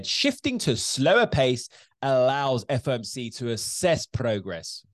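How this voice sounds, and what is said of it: Failed American accent quoting Powell. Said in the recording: “Okay, that's not even American accent.”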